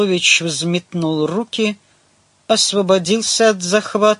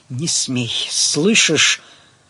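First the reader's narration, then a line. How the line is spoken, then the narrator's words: Hissed in face. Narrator (Russian): Павел прошипел ему в лицо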